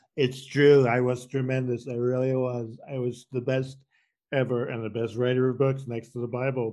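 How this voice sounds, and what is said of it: Donald Trump impression. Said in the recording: “your Donald Trump impression”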